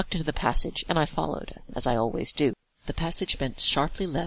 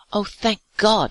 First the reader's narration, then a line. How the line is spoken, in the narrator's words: he exclaimed at the sight of us